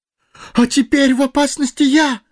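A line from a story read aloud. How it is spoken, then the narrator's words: Terrified exclamation. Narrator (Russian): в ужасе воскликнул Фродо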